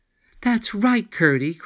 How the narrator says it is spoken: cried the princess

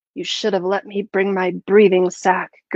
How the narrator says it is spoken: Gertie hissed

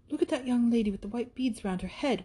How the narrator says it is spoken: whispered Catherine

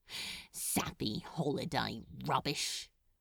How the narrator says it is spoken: he muttered

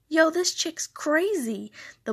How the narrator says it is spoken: the boy exclaimed

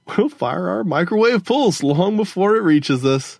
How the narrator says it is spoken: Gogo Fernanda laughed

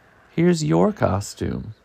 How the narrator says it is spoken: she exclaimed

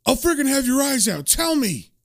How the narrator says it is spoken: he's still yelling at him saying

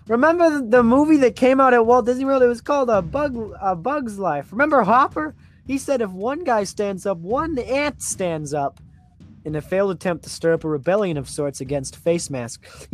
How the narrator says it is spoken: he yells

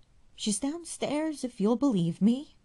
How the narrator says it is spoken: cried the widow

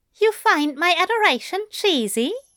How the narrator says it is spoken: Aziraphale giggled

